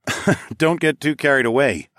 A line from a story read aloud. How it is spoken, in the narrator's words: I chuckled